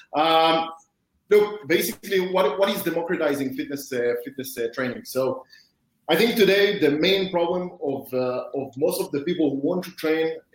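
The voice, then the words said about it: Speaks with a non-native accent. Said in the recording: “sorry for my accent.”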